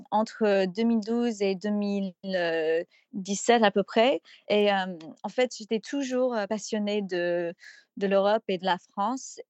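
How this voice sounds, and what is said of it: American accent speaking French. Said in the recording (French): “même avec mon petit accent ... J'ai rarement entendu une américaine parler aussi bien le français.”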